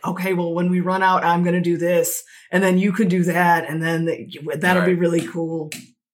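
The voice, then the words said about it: Exaggerated bro voice. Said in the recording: “In my best bro voice.”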